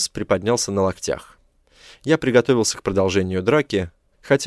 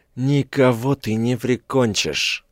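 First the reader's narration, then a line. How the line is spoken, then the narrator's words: Breathless, swollen-lipped gasp. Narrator (Russian): выдохнул он распухшими губами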